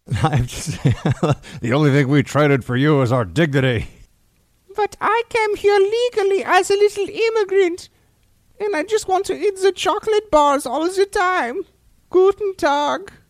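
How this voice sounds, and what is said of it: Put-on German accent. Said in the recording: “even I can do that accent, right? I can joke around about the German exchange student”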